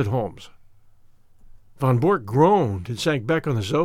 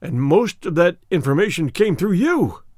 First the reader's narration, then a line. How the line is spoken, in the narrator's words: he cried